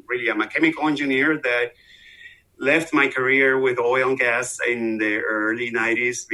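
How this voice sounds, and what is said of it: Venezuelan Spanish accent. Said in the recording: “I'm obviously from the accent you hear. I'm from Venezuela, South America”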